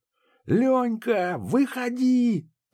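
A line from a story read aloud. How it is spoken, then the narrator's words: Shout. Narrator (Russian): крикнул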